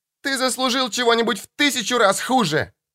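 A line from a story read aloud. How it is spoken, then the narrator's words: Screaming. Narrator (Russian): закричала Мишель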